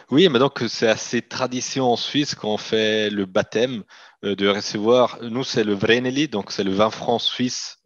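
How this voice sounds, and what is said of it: Slight Italian accent in French. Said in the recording (French): “ma, langue maternelle est italien, donc vous allez m'excuser ... mon, accent un petit peu italophone”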